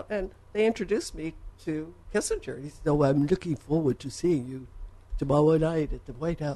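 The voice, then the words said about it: Poor impression, sounds like Elmer Fudd. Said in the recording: “worst Kissinger impression ... It's actually more Elmer Fudd.”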